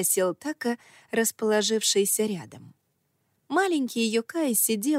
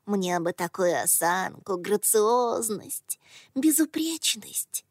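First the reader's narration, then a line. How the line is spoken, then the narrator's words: Sighing. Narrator (Russian): Така вздохнул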